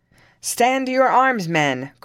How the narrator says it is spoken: cried Le Jolie

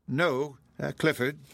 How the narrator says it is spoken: she replied

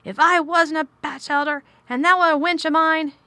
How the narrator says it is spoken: he cried

